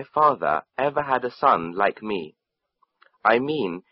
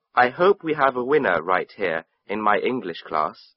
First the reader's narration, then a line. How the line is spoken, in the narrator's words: she said